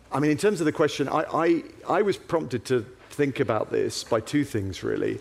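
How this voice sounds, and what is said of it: English accent. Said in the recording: “as you can tell from my accent, I hail from England”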